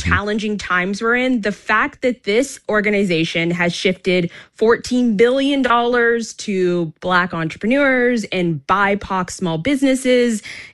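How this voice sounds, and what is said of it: Canadian accent, often heard as American. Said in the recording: “as a Canadian ... people assume they're American because of our accent. You know, many people hear me and think, oh, where in the U.S. are you from?”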